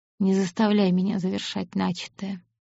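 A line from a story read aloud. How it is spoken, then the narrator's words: Calm. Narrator (Russian): уже спокойно сказал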